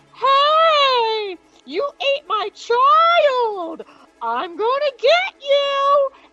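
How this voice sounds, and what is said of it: Angry shouting character voice. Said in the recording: “And she's pissed. And I can't even give her my funny animal voice I usually use.”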